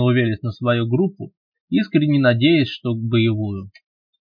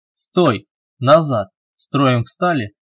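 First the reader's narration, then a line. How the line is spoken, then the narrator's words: Barked command. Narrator (Russian): рявкнул Велес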